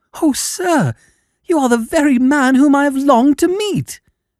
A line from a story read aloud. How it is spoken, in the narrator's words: cried the little fellow